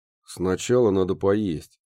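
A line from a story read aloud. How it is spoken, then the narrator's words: Grumbled. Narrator (Russian): проворчал Муха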